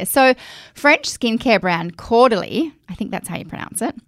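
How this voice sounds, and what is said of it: Broad Australian accent. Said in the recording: “my Aussie Bogan accent”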